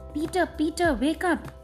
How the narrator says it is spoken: called out Heidi

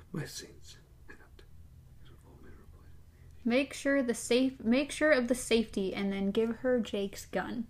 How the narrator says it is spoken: She whispered

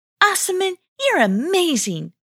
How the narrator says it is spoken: exclaimed Gablia

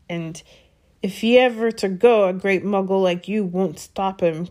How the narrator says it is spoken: growled Hagrid

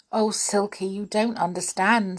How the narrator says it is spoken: said Joe

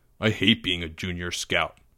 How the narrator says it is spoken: Greg grumbled

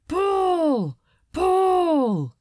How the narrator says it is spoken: Like some ritualistic chant, men cried

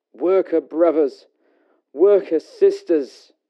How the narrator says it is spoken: With a small voice in the large hall, he cries

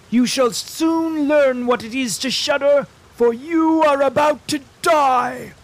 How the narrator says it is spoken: he shouted

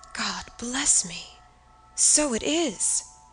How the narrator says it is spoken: exclaimed my father, growing pale

